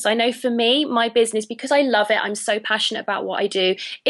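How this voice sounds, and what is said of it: British English accent. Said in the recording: “as you can tell from my accent, I'm a Brit”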